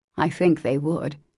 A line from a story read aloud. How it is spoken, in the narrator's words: came from under the hat, in a grim tone, quite as touching as a broken one